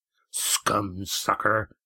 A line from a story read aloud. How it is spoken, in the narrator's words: grunted Red Ian